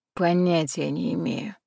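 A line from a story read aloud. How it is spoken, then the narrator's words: Sigh. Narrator (Russian): вздохнул Валера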